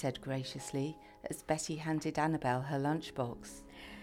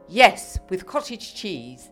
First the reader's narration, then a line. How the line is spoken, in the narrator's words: Maud said firmly